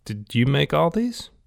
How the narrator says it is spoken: he blurted out

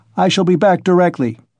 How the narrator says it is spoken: he shouted to the horror-stricken mother

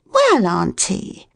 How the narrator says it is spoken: she said quite cheerfully

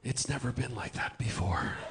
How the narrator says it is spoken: he breathed

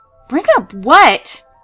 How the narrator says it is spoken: I suddenly screamed

